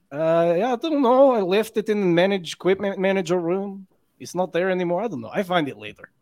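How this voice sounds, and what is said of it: Put-on Russian accent. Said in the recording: “I only have Russian. One Eastern European accent... how's my accent? It's probably not good. It's probably pretty Russian.”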